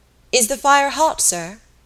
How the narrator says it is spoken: suddenly he called out to the man at the furnace

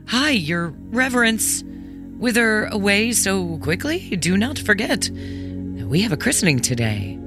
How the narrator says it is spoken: astonished called out

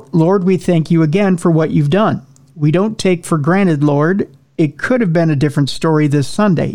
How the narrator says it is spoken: he said

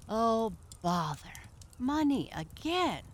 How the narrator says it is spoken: cried the doctor

